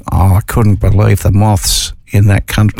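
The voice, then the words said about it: Poorly done put-on accent. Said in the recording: “They probably would have had an accent. I didn't do the accent very well.”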